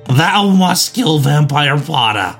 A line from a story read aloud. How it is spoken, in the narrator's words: He yelled